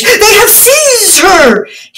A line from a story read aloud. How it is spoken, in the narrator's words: he cried in his dashing, foolish words